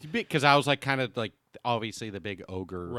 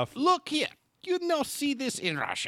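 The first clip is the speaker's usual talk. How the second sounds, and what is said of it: High-pitched Russian-accented English. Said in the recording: “this little high-pitched, very Russian accent, English-speaking but very Russian man”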